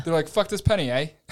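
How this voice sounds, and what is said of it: Failed Canadian accent, sounds Irish. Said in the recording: “that sounded more Irish. No, eh? ... we knew you weren't going to nail that.”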